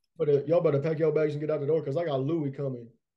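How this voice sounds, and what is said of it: Imitates another person's voice. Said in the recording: “my Deion Sanders impression”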